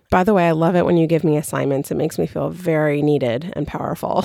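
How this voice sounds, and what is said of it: Southern California Valley girl accent. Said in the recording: “me being a Valley girl and sounding like a Valley girl ... of course I sound like a Valley girl because I did grow up here”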